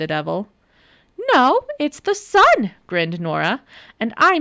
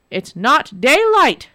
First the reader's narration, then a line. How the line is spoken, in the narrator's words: shouted the water devil